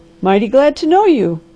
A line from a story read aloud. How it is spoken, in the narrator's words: cried the doctor